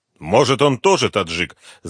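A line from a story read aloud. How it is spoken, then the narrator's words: Angry question. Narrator (Russian): зло спросил Потапов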